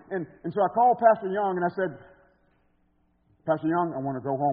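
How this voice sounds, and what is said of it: Strong Alabama Southern accent. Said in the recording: “I was coming from Alabama with a super strong accent. You think it's strong now?”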